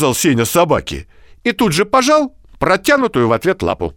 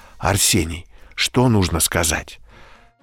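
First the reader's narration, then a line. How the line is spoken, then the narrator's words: Mother whispering. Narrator (Russian): Мама шепотом говорит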